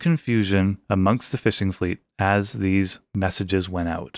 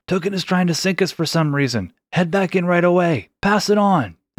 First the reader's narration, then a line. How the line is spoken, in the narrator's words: The sailors had yelled